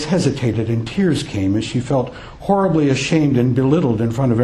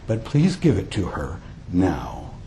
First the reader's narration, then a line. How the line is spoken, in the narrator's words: said softly